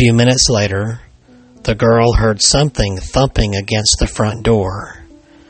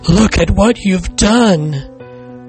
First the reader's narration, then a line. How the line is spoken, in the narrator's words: cried the mother